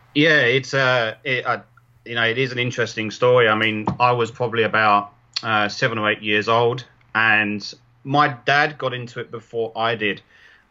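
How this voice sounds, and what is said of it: London English accent. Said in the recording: “you're originally from London ... I'm sure the listeners can tell by your accent that I'm incredibly jealous of”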